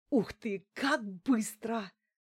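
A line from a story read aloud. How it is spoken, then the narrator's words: Breathless admiration. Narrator (Russian): выдохнула Лариса в восхищении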